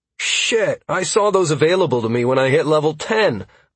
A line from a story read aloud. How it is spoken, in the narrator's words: I exclaimed